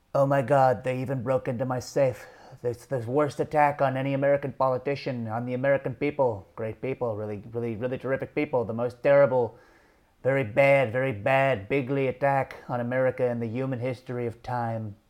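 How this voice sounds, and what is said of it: Mediocre Donald Trump impression. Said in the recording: “my already mediocre Trump impression”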